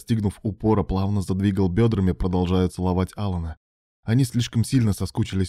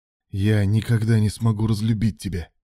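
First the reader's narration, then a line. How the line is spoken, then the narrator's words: Convulsive breathless exhale, blissful. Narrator (Russian): Алан судорожно выдохнул, растворяясь в сладкой истоме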